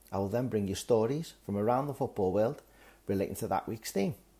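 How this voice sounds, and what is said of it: Liverpool regional English accent. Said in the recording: “I'm also from Liverpool, the football capital of the world, so this is a chance to hear a different regional accent”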